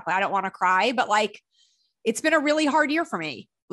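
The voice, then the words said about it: Choked-up, tearful voice. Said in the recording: “all of a sudden just started getting choked up.”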